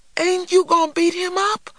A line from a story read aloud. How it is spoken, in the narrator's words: cried a disappointed little man